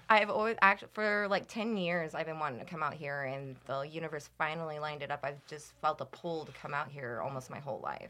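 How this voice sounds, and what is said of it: Midwestern American accent. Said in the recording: “The Midwest accent's starting to come out now.”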